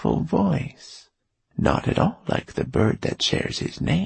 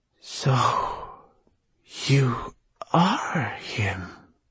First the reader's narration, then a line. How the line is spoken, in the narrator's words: he breathed